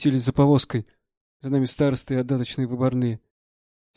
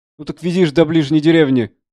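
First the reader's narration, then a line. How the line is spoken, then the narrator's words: Shouting. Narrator (Russian): кричал заседатель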